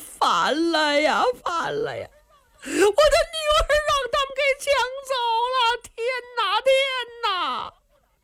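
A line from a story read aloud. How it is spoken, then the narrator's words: Old man shouting while running. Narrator (Chinese): 一个老头一边跑一边喊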